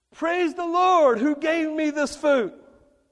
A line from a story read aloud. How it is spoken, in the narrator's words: the lady screamed